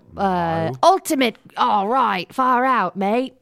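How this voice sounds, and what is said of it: Bad put-on Australian accent. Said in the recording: “Australian accent. ... We're so bad at these accents.”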